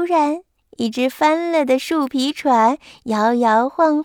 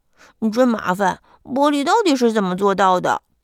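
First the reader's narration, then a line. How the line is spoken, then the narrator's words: Anxious muttering. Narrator (Chinese): 他急得满头大汗，嘴里还嘟囔着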